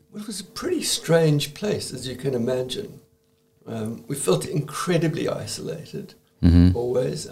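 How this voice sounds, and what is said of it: South African accent. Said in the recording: “You're originally from South Africa, if anyone can kind of hear your accent.”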